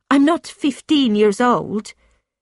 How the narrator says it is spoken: Francesca replied sharply

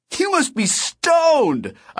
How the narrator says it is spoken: I shouted

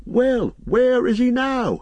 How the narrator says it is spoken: cried several voices

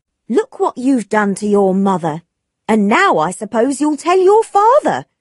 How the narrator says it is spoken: Dixon said angrily

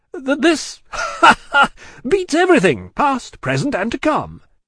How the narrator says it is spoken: laughed Stryver with a vexed laugh

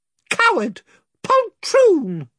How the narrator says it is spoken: squeaked Weepy-Cheep

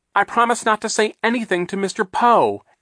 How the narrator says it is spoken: Aunt Josephine said desperately

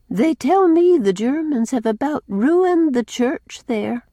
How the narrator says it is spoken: sighed Cousin Sophia

